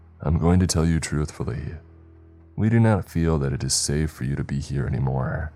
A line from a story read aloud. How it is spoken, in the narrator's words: he began sighing